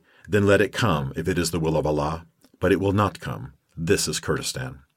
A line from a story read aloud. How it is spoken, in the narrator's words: He said quietly